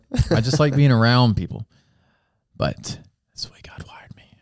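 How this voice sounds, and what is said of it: Whispering, very quiet voice. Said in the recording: “Why am I whispering so much? ... Your volume. ... I'm whispering in your ear today.”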